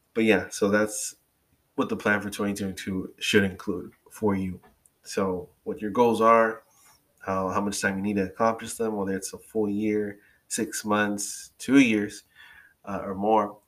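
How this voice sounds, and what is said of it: Slightly raspy, throaty voice. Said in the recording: “I'm getting all better from COVID. I do have to take breaks in between recording this to clear my throat ... I'm sure you can hear it. I feel my voice getting a little raspy.”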